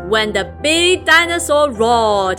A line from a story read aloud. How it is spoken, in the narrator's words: Rex roared